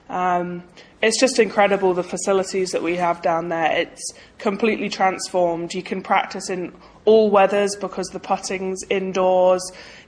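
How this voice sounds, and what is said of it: British English accent. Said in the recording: “notice the British accent, so they know that you're from England”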